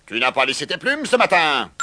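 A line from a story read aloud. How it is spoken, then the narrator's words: Shouting. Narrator (French): Puis il cria à Prunette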